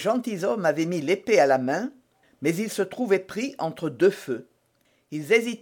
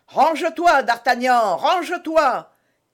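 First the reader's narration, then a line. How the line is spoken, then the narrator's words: Shout. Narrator (French): cria Athos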